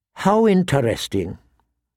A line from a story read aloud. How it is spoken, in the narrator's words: said in a flat tone